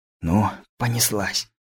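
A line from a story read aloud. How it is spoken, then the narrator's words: Whispered. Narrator (Russian): прошептал Лысый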